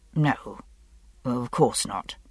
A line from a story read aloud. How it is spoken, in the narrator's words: Roger muttered